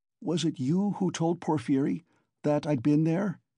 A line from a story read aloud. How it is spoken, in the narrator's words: he cried, struck by a sudden idea